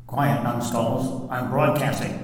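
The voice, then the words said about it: Imitates another person's voice. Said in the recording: “I like to do this Three Stooges impersonation”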